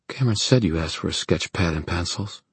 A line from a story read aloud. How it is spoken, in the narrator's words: she said in a near whisper